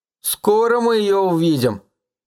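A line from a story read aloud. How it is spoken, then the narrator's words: Gloomy drawl. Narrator (Russian): уныло протянул Том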